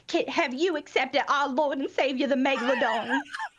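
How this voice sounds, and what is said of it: Thick put-on Southern accent. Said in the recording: “in my like thickest possible Southern accent”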